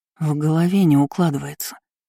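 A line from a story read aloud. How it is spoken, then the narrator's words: Breathy exhale. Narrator (Russian): выдохнула Кейр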